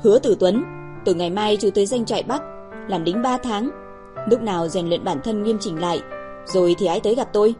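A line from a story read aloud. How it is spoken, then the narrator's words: Cold command. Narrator (Vietnamese): Tiêu Bắc Thần lạnh lùng nói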